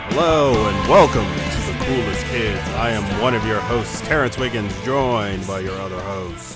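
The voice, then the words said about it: Deeper, smooth, bassy voice. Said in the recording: “my voice is a lot deeper today... It has a smooth quality to it... It is bassy.”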